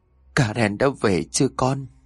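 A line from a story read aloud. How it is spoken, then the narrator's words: Choked, sobbing question. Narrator (Vietnamese): Bà Mariam hỏi bằng một giọng nức nghẹn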